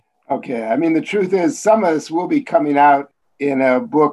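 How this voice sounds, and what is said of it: Chicago accent. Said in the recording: “your accent also betrays your Chicago roots”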